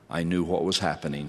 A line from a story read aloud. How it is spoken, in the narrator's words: she said